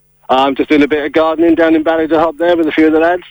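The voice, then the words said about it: English accent. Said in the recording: “You've a lovely accent. Originally English? ... I'm originally English”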